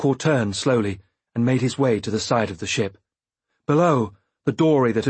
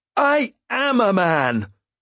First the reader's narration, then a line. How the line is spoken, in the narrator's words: he bellowed after Sorkor